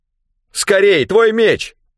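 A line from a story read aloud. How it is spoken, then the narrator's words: Shouted. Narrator (Russian): крикнул Рэндом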